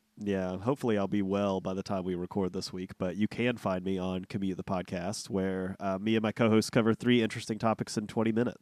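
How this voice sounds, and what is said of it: Congested, nasal voice from a cold. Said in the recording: “in his best cold voice ... hopefully I won't sound as nasally”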